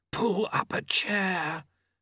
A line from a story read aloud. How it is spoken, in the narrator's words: Famine hissed